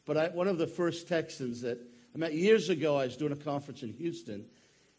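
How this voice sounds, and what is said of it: Maine accent. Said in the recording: “I am from Maine ... he could tell by my accent that I wasn't from around here. And if you listen, you'll catch it.”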